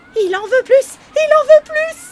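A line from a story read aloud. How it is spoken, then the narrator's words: Trembling goblin shouting. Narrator (French): crie encore le lutin en tremblant comme une feuille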